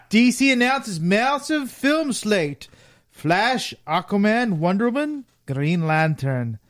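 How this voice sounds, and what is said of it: Put-on unusual accent. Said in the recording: “The hell is with that accent? ... I'm trying different voices.”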